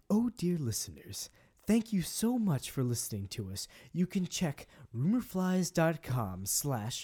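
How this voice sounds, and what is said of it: Impression of a radio host character. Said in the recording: “do your best impression of Greg impersonating Cecil from Welcome to Night Vale”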